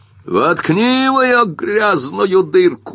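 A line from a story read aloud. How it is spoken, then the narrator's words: Shouted. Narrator (Russian): закричал Уилли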